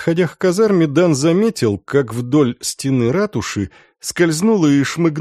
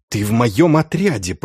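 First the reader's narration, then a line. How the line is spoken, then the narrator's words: Hissed. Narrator (Russian): прошипел Дан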